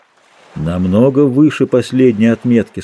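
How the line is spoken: Plain. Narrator (Russian): сказал он

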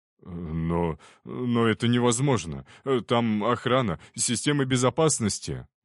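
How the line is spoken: Exclamation. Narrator (Russian): воскликнул он

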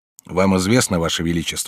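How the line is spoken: Plain. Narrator (Russian): сказал я

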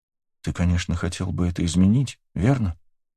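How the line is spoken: Quiet question. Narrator (Russian): тихим голосом спросила Таис

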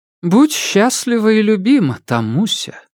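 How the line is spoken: Cooing. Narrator (Russian): проворковала Жозефина Ивановна

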